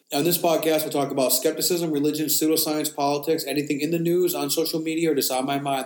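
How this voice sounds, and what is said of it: Congested voice from a cold. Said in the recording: “I'm fighting off a cold, so you may hear it in my voice today ... edit out the sniffs and coughs”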